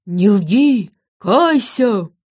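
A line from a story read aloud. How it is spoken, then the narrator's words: Low dog's growl. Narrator (Russian): Один из псов с глухим рычанием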